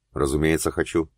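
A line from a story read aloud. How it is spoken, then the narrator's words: Quiet reply. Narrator (Russian): тихо ответил Макс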